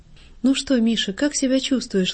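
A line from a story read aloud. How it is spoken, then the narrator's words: Gentle motherly question. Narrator (Russian): ласково спросила Марья Николаевна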